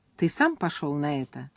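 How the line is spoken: Plain. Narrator (Russian): сказала Элли

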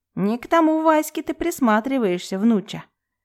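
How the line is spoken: Grandmother clicking tongue. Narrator (Russian): Цокнула языком бабушка

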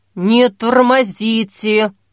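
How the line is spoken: Hiss. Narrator (Russian): прошипел Вадим

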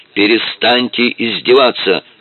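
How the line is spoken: Shouting in Russian. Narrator (Russian): уже по-русски закричал он

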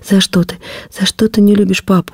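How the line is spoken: Sobbing, broken off. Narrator (Russian): рыдания не дали мне досказать

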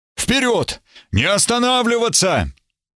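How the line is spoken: Shout. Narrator (Russian): Эбергард крикнул

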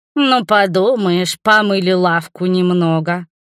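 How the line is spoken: Grumbled. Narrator (Russian): проворчал Мурис

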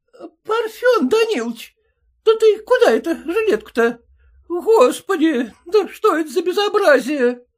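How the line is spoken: Exclaimed. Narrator (Russian): воскликнула жена

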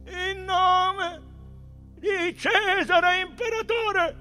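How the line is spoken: Rhythmic iron military chant. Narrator (Italian): un ferreo grido scandito nelle coorti

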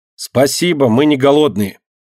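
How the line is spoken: Said loudly. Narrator (Russian): громко сказал

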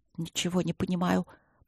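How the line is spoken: Muttered. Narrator (Russian): пробормотала Эбби

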